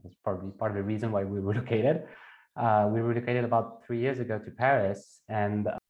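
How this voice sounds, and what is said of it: French accent. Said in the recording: “as you can hear from my accent, I am French”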